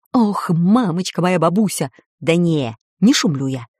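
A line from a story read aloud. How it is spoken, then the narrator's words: Anxious whisper. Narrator (Russian): Шепотом ответил Баб-Ягун, тревожно косясь на освещенные окна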